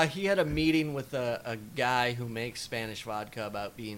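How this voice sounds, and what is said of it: Usual voice. Nothing is said of it.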